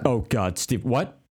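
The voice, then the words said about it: Imitates another person's voice. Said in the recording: “That's a good impression of my wife.”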